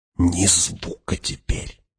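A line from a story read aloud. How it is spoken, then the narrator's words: Whispered warning. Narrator (Russian): шепотом предупредил Фриман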